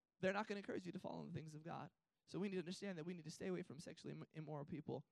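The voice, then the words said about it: Strained, failing voice. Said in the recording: “I'm preaching better than my voice is holding up.”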